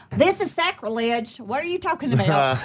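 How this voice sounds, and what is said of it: Put-on New York accent. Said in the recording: “That's my New York accent. Thank you. I have worked so hard on it.”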